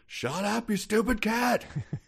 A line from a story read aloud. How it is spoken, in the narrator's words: Jonathan, who was sick of listening to the cat, yelled out